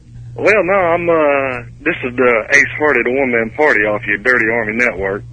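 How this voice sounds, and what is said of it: Thick redneck drawl accent. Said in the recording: “I love your accent, man. I can't understand the words that are coming out of your mouth ... you sound like you're from Australia ... I try and play off the redneck draw as much as humanly possible”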